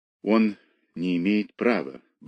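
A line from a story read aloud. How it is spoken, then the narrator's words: Muttering. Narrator (Russian): бормотала она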